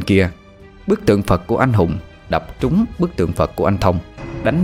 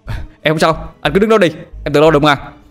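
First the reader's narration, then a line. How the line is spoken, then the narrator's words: Shouting upward. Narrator (Vietnamese): hét ngược lên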